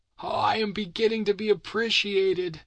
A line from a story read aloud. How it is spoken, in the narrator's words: he cried